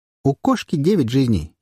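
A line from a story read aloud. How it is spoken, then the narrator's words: Giggling. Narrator (Russian): хихикнула Мурра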